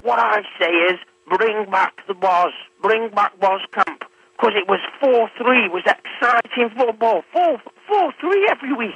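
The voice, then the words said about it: Newcastle-under-Lyme Staffordshire accent. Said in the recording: “has a Newcastle under Lyme accent. ... I would guess Chesterton”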